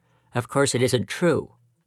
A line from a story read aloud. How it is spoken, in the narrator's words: muttered Peter